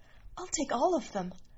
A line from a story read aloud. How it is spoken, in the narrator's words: She whispered